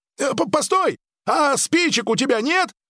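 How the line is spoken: Yelled after, young man. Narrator (Russian): завопил вслед парень

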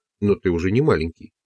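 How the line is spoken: Plain. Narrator (Russian): сказал он

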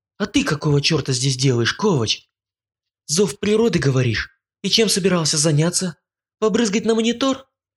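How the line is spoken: Angry hiss. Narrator (Russian): я лишь зло прошипел

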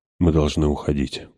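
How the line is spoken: Whisper. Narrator (Russian): прошептал

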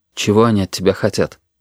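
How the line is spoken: Quiet question. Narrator (Russian): тихо спросил Костя

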